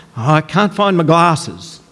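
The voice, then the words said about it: Impression of an elderly grandfather. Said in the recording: “do an impression of my grandfather”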